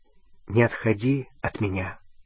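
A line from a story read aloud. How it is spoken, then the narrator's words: Quiet. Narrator (Russian): сказал он тихо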